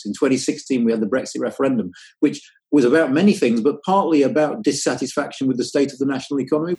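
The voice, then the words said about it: British accent. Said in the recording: “It's nice to hear a British accent.”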